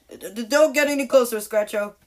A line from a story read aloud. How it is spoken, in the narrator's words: screamed Alex